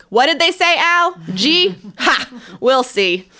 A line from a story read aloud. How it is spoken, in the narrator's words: Pa would loudly ask